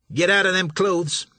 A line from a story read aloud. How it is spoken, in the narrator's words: Sir Billy snapped